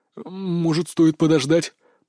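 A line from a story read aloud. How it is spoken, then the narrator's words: Trembling voice. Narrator (Russian): предложил Чаки дрожащим голосом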